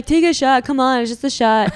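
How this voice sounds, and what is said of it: Imitates pushy guys at a bar. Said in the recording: “That was a great impression.”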